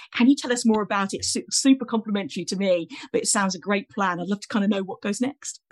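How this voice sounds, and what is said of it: British English accent. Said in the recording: “the accent gives me away here, but obviously as a Brit as well ... my accent gives me away as a Brit here”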